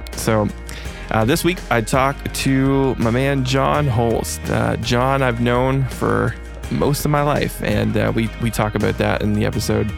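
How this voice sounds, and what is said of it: Slightly deeper, off-sounding voice. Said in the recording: “I apologize for sounding a little off. I'm kind of sick right now ... my voice is a little deeper”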